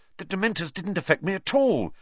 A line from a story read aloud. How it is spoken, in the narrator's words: Harry said excitedly